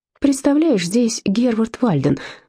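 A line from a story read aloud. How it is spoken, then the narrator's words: Excited announcement. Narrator (Russian): взволнованно известила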